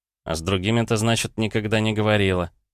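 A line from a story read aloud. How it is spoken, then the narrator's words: Nervous snort. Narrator (Russian): Я нервно хмыкнул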